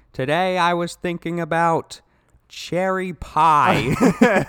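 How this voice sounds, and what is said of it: Imitates another person's voice. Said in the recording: “my David Lynch impression.”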